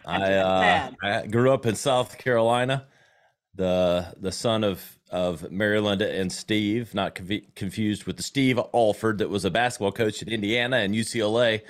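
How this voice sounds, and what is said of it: Slight Southern US accent. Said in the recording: “I am a Southern boy. You probably hear the accent a little bit.”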